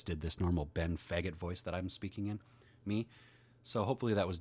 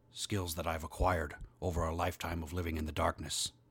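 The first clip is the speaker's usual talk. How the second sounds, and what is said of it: Liam Neeson impression. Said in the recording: “I don't know how good of an impression that is ... I didn't do a Liam Neeson”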